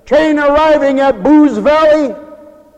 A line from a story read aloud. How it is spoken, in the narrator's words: The conductor yelled out, says